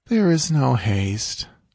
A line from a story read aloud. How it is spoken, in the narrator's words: she answered lazily